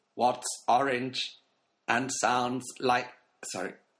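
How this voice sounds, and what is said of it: Robot voice. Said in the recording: “Robot 3000 ... Can I stop doing this voice? ... The robot's upsetting my dog in the background.”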